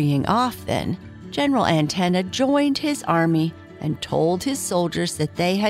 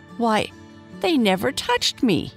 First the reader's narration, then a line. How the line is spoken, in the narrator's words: he exclaimed